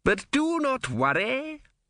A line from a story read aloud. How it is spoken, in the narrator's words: said cheerfully